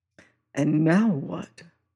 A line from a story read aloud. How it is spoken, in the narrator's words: says he softly